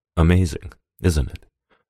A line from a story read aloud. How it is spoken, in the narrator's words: Norris whispered, as if for Blake's ears only